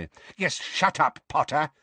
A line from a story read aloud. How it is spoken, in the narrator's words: barked Fudge, with a kind of horrified delight